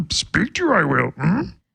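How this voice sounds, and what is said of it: Yoda character voice. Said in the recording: “Can you do Yoda?”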